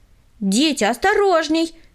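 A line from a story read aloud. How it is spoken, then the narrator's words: Warning shout. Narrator (Russian): крикнула им Таисия Михайловна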